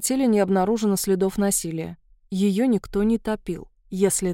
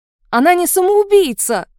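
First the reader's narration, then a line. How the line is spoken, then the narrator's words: Shouting into phone. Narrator (Russian): крикнула Арина в трубку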